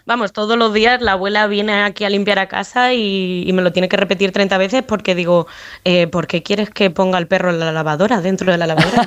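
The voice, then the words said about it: Spanish accent leaning toward Madrid. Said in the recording (Spanish): “el acento es un poco tirando de Madrid”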